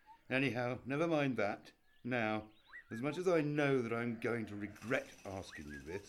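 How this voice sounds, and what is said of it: Usual voice. Nothing is said of it.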